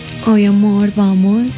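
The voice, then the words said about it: Put-on Colombian paisa accent. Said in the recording (Spanish): “usted me responde en acento paisajo”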